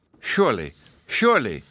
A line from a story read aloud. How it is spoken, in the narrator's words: exclaimed in a tone of relief, with sparkling eyes